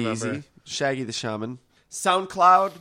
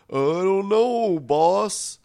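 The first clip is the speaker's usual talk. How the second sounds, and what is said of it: Voicing a web browser character. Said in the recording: “my impression of your browser”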